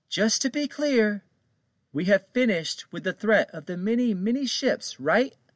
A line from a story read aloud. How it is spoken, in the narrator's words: Captain Rose called out